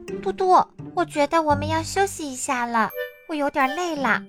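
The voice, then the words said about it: Soft quiet voice. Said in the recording (Chinese): “小声说”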